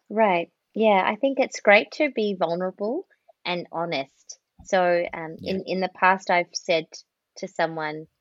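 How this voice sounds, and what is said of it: Australian accent. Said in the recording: “I'm coming from an Australian accent”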